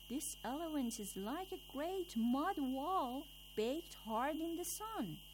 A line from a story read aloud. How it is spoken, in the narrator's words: the first man at once cried out